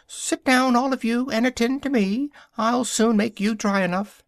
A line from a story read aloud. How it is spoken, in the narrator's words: the Mouse, who seemed to have some authority among them, called out